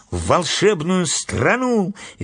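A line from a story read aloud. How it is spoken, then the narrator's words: Cheerful chiming in. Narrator (Russian): весело подхватила Энни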